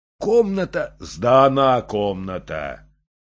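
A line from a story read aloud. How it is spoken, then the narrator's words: Deep bass voice. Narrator (Russian): сказал кто-то басом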